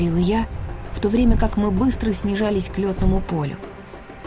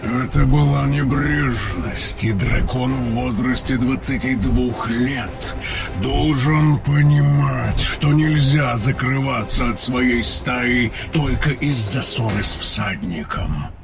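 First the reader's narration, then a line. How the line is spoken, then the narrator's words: Grumbling, anger fading. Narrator (Russian): проворчал Тейрн, но его гнев уже сходил на нет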